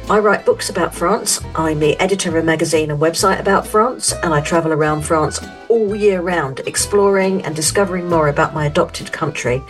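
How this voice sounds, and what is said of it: London English accent. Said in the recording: “as you may tell from my accent, I'm not French. I'm from London, UK”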